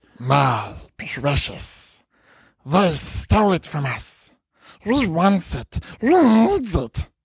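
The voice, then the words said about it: Put-on creepy character voice. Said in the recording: “Do an accent. take us out on an accent. ... That was really good. ... I was kind of terrified for a second”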